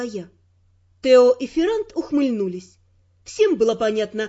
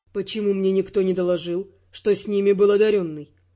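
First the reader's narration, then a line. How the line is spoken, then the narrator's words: Displeased grumbling. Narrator (Russian): Недовольно пробурчал Дайон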